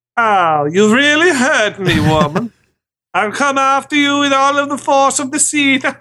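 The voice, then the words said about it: Shifting put-on foreign accent. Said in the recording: “accent and everything ... not know what accent he's going to ... It wasn't Southern ... he started like Borat, and then he ended like Mario and Luigi ... It's always Wario ... a dialect from a galaxy far, far away. You know, you can't really identify.”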